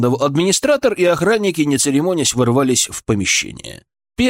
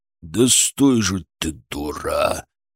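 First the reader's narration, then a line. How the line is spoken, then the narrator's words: Growl. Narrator (Russian): прорычал бритоголовый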